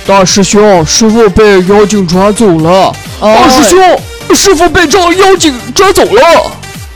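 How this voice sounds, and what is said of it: Imitates the character Sha Seng. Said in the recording (Chinese): “模仿的沙僧，我觉得他应该模仿的是沙僧 ... 是沙僧的一句经典台词”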